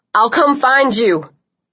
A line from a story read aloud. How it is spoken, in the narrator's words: Liam was shouting